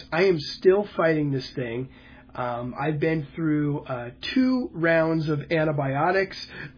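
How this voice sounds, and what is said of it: Rough, sick-sounding voice. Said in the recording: “hear the roughness in my voice”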